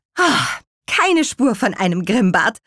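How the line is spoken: Relieved exclamation. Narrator (German): rief Petronella erleichtert

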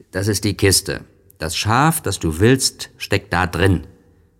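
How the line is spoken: Growled. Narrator (German): knurrte dazu

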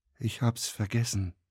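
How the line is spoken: Gentle. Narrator (German): sagte Lenny sanft

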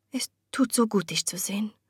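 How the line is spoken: Soft. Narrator (German): sagte Constance leise

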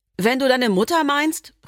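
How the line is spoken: Called after. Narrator (German): rief Dana mir hinterher

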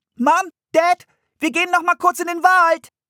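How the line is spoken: Calling through screen door. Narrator (German): rief Anne durch die Fliegengittertür

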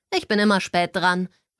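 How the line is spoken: Calling over music. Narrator (German): rief über die Musik hinweg

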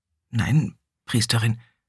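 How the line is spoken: Stammering. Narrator (German): stammelte Krelis

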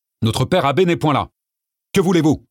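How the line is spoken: Monk's firm tone. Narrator (French): reprit le moine d'un ton ferme

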